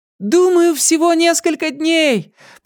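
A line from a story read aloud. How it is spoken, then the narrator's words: Shouted. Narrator (Russian): прокричала она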